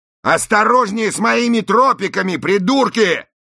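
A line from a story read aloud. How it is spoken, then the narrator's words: Yelled. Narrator (Russian): заорал пластик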